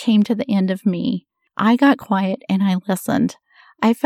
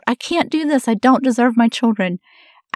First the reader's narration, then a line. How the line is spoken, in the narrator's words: When I finally got to the point of desperation where I cried out